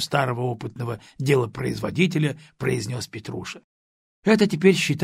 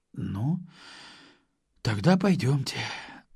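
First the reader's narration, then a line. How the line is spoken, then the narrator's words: Sighing. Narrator (Russian): вздохнув, сказала девушка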